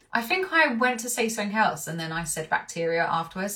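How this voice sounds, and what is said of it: Talking very fast. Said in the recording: “I'm talking really fast ... I'm talking fast because there's just so much to say about this”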